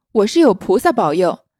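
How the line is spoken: Frothing, raving curse. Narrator (Chinese): 妙玉口口中流沫，骂道

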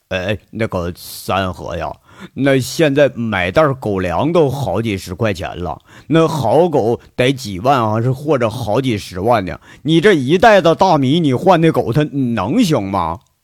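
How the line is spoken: Puzzled question. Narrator (Chinese): 连脑子不太转弯的王虎子也听着不对了，就问

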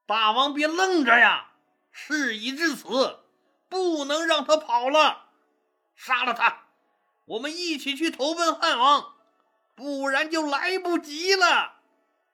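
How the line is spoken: Loud urgent shout. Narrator (Chinese): 随和大声喊道

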